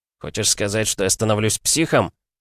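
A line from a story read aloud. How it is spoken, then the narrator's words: Near growl. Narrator (Russian): Чуть ли не зарычал я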